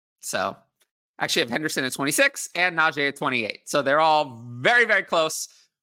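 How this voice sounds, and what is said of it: Strained, hoarse, fading voice. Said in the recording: “I also am kind of losing my voice”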